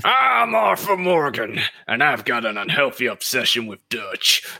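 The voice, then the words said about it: Imitates Arthur Morgan's voice. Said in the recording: “I want to hear your Arthur Morgan. ... That was pretty good.”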